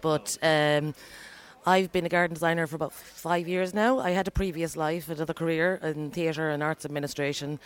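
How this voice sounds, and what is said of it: Irish County Galway accent. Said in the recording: “It's not a Dublin one ... I'm originally from County Galway ... I've been in Dublin 25 years, and I still haven't managed to shift the accent”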